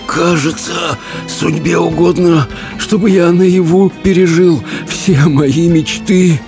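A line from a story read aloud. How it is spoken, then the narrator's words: Hoarse rasp. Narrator (Russian): прохрипел он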